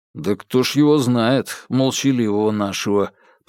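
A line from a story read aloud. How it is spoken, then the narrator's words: Grumble. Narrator (Russian): проворчал Бабкин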